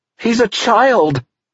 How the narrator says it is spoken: Teresa cried

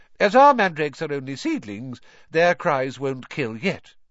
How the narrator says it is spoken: she said calmly, as though she had just done nothing more exciting than water a begonia

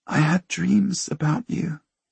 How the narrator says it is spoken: she whispers

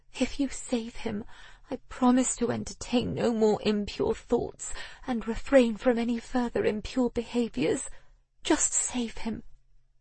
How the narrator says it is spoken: she whispered

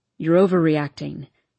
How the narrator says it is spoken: he says flatly

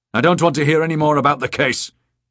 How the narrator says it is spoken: snapped

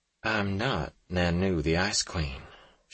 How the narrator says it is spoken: she said softly

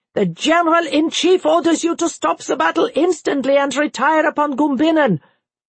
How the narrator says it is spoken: in no less bad temper than already raged there, he shouted at General von François

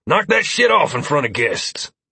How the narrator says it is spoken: Cassius growled in exasperation

